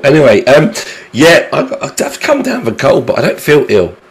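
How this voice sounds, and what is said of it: Hoarse, failing voice. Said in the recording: “Excuse my voice. I am losing my voice ... me sounding like someone that's been kicked in the testicles”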